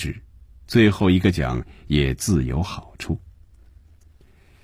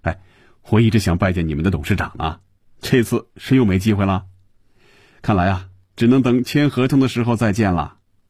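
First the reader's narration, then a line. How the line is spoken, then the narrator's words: Joking. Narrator (Chinese): 又开着玩笑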